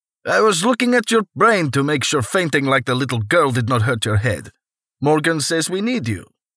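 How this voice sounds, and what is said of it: Heavy Russian accent. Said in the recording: “the bald man with the heavy Russian accent said”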